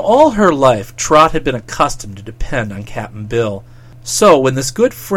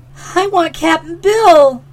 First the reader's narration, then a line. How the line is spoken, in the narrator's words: wailed the girl